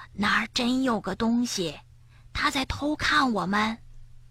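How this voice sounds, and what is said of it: Whispered story character line. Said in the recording (Chinese): “跳跳小声说”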